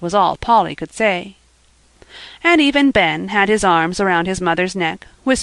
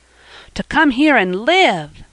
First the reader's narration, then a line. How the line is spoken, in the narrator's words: cried Jasper, unable to keep still any longer